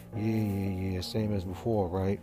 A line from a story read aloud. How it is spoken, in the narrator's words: Kyle asks sarcastically